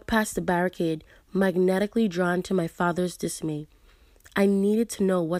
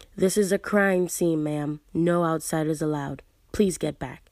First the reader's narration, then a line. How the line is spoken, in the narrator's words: he informed me, his voice monotonous